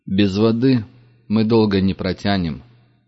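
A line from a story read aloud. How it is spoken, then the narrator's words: Grim. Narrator (Russian): мрачно сказал Зепелин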